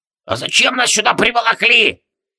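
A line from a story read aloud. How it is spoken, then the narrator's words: Shrill trembling old man. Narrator (Russian): взвизгнул трясущийся старикашка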